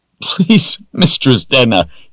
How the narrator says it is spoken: sobbed

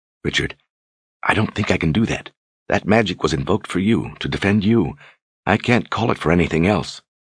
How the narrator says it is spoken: she whispered

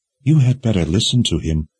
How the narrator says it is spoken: Nikki said from behind him in that velvety voice of hers

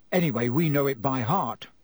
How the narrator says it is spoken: said George

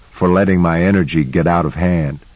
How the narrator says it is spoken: said, chuckling

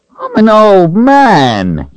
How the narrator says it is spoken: he complained, then sighed loudly

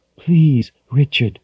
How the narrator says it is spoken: his mother breathed

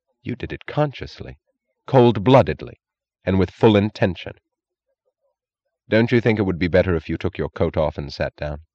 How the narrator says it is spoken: She said in the solemn, merciless tone of a prosecutor

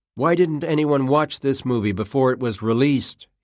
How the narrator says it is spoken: he said

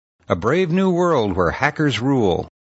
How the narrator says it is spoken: shouted Stein

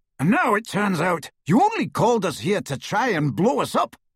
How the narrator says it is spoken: roared the Death Eater

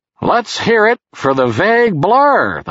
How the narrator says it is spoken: the host said loudly

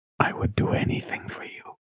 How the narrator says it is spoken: he whispered

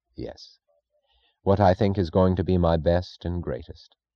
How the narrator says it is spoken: Francisco answered gravely, almost solemnly

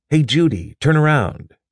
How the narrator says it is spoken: said Harvey eagerly

